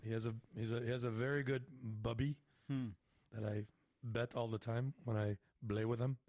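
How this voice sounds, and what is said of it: Mock Middle Eastern accent, P as B. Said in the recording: “the Middle Eastern accent is that the W doesn't really exist ... It's a V ... they speak Arabic, and there is no P, as in Papa. Papa would be Baba ... it's with a B”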